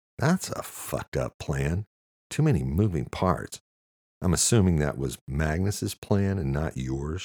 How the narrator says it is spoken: she said

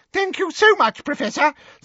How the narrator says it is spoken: said Professor Flitwick in his squeaky little voice

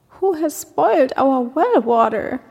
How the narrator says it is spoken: a gazelle cried

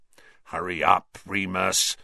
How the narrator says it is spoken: snarled Black

